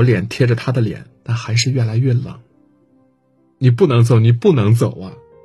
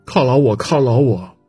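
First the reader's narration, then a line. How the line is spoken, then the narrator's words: Panicked cry. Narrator (Chinese): 我慌了，喊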